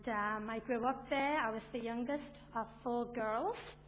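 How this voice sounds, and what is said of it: Liverpool English accent. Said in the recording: “As you can probably tell from my accent, I'm not from around these parts ... I'm originally from Liverpool, over in England”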